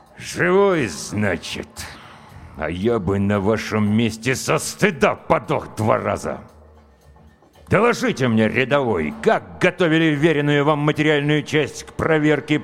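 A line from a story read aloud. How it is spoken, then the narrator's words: Words forced through teeth. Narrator (Russian): процедил комбат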